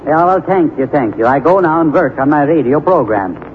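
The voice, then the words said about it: Put-on comic foreign accent. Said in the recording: “You can work a little on your accent, too.”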